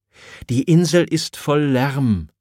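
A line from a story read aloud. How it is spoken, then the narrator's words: Stammering. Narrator (German): stammelt Caliban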